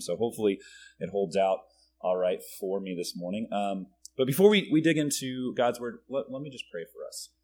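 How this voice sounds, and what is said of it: Weak, strained voice from a cold. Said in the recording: “my voice is a little bit weaker than it normally is this morning, a combination of having a cold and coaching my son's basketball team”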